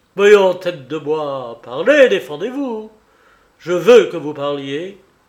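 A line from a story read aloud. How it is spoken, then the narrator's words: Furious shout, headmaster. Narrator (French): s'écria d'une voix rageuse le directeur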